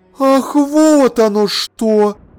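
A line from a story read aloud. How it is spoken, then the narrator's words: Exclaiming. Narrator (Russian): воскликнула она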